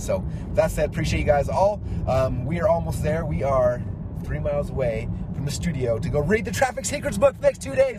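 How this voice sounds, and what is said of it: Strained, hoarse voice. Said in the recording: “I'm already losing my voice. It's not good.”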